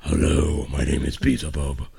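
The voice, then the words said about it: Demon character voice. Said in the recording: “That was a good voice for a demon. ... It was a horrible voice.”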